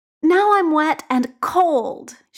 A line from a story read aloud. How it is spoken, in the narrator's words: says indignantly